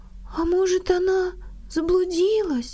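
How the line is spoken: Sad. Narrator (Russian): сказала грустно Марта

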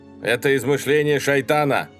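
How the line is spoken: Angry shout. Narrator (Russian): гневно крикнул Гафар

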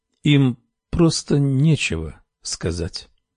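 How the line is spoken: Slow. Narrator (Russian): медленно проговорила Камилла

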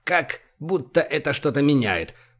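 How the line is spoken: Dwarf grumbling. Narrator (Russian): проворчал гном

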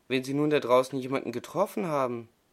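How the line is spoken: Horrified stammering small cat. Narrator (German): stammelte der kleine Kater ganz entsetzt

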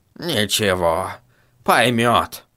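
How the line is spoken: Old man grumbling. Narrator (Russian): пробурчал старик

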